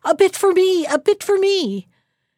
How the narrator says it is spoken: a voice behind him cried

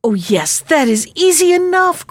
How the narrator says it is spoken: cried the princess, delighted to think that, after all, they need not be parted

